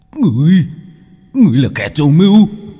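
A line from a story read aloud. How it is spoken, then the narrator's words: Hissing. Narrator (Vietnamese): Tên thủ lĩnh rít lên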